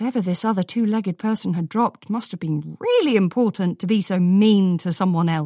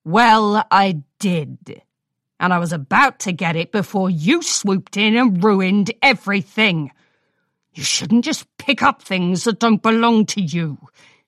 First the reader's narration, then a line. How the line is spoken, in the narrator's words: she growled